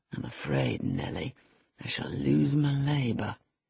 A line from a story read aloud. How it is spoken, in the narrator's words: he muttered